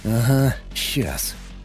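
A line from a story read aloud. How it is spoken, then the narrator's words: Grumbling mutter. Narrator (Russian): буркнул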